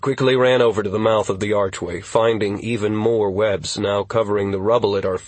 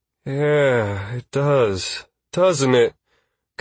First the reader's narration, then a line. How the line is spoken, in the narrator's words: Constantine breathed